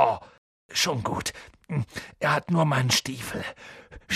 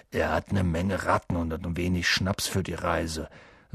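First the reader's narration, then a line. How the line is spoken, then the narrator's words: Dull hollow voice. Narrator (German): sagte er mit dumpfer Stimme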